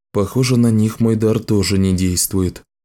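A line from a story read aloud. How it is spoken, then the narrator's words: Sad voice. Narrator (Russian): грустно произнес Ричард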